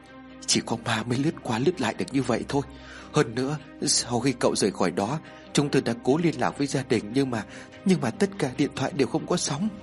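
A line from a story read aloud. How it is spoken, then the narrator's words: Frightened. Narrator (Vietnamese): Một người khác cũng rất sợ hãi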